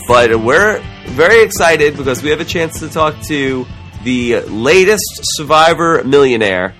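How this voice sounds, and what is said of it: Slightly sore, strained voice. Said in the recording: “My voice is a little sore.”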